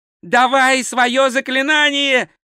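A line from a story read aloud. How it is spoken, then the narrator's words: Screaming. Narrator (Russian): завопил два цветок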